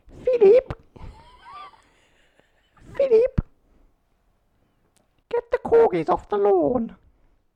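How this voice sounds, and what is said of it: Impression of the Queen. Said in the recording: “What does the Queen sound like?”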